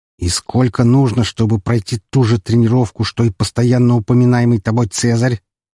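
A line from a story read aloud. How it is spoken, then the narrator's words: Through clenched teeth. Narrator (Russian): процедил мужчина сквозь стиснутые зубы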